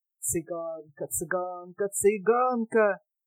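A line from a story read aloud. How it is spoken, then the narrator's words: Singsong spiteful mocking mutter. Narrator (Russian): Затворница начала бормотать каким-то певучим, злобным и насмешливым голосом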